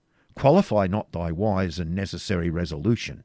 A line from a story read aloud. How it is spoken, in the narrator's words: said